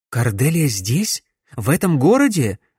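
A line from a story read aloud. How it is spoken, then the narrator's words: Surprised exclamation. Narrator (Russian): воскликнула Камилла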